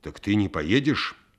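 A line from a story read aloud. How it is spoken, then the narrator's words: Angry question. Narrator (Russian): сердито спрашивал Чечевицын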